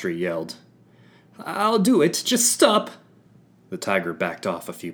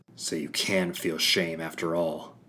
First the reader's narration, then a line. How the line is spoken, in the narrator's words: I muttered at her